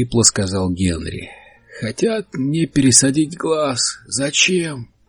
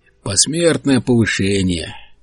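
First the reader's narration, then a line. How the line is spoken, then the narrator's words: Grumble. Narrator (Russian): проворчал Генри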